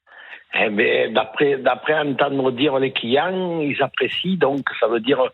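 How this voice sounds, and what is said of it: A beautiful regional accent. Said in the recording (French): “Quel bel accent.”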